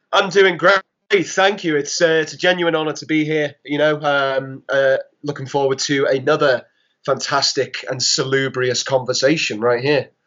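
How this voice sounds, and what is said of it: Noticeable accent. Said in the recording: “folks are immediately going to notice your accent”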